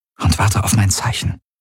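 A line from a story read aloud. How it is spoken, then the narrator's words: Murmured. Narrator (German): murmelte sie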